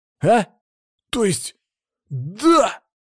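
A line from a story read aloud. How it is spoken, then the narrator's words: Abrupt change of tone. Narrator (Russian): Резко переменился Федя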